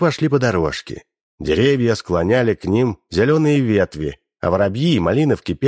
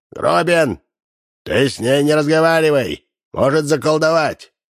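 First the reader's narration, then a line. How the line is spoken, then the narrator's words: Old man shouting. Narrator (Russian): Старик Ложкин кричал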